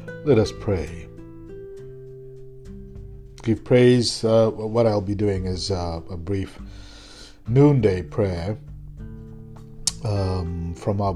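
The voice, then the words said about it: Hoarse, sore-throated voice. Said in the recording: “Apologies for my voice. I have a sore throat and I'm fighting a pretty severe cold.”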